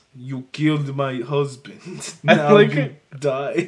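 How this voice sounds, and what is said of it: Put-on Russian accent. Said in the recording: “I need to get my Russian widow voice. ... your accent is literally... you're just doing Alison Brie on Glow right now. As your, like, Russian accent.”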